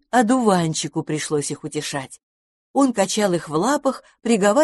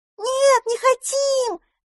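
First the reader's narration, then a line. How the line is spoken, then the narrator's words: Squeaking children bursting into tears. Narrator (Russian): запищали малыши и немедленно разревелись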